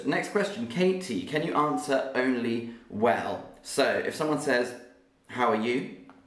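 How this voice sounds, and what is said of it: Southern English RP accent. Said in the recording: “my accent is a very typical Southern English accent ... the British accent I am speaking with is the most sort of normal, common one to hear ... My accent is called RP, and this means received pronunciation”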